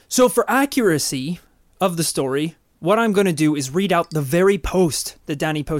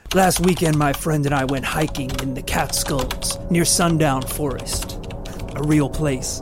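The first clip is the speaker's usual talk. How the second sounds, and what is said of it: Put-on man's voice. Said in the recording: “I'll just do a man's voice.”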